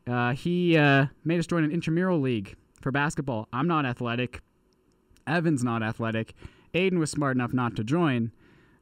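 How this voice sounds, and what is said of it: Slightly strained, fading voice. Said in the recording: “Probably losing my voice a little bit.”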